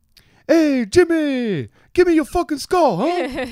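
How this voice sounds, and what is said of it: Exaggerated New Jersey accent. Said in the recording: “terrible impression of my people ... from New Jersey”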